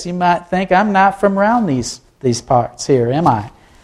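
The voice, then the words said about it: Put-on Southern accent. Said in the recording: “I started talking like this ... I was a little embarrassed with the Southern thing”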